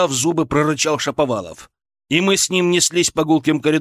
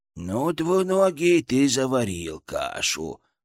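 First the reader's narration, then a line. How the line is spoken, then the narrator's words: Creaky, delighted inner voice. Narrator (Russian): проскрипел у меня в голове Фырк, который, кажется, был в полном восторге от происходящего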